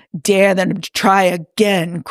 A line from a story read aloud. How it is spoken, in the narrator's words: Crowley grumbled into his glass